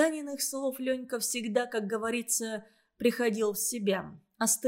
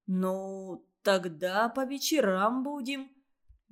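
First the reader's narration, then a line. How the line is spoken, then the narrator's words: Slow speech. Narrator (Russian): медленно проговорил Ленька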